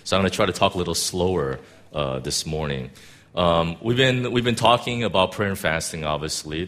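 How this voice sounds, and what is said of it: Deeper voice from a cold. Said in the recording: “I caught a cold ... my voice is going to be a little deeper than normal ... it might be a little hard to hear me”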